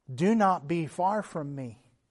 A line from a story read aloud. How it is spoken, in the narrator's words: was answered